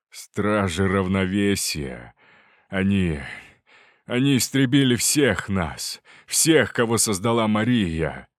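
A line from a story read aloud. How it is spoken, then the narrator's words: Despairing laugh. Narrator (Russian): Артур рассмеялся, но в его смехе звучало отчаяние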